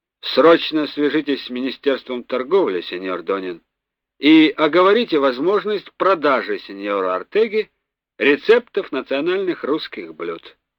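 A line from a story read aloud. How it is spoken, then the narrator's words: Stern. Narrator (Russian): позвал кока Русов, строго сказал ему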